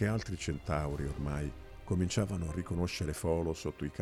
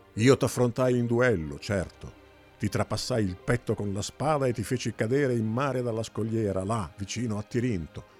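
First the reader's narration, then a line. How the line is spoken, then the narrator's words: Furious shout. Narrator (Italian): gridò Nebo, pestando furioso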